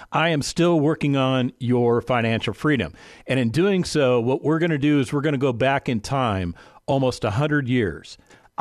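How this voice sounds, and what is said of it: Slightly raspy voice. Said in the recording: “my throat is a little bit raspy today”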